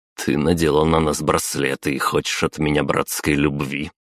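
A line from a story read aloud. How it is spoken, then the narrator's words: Scoffing. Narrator (Russian): хмыкнул я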